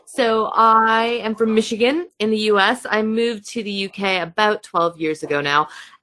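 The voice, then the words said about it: American accent. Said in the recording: “I do have an accent. I am American.”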